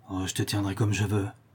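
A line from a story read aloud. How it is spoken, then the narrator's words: Murmur from a cellar. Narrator (French): murmura le maître d'école au fond du caveau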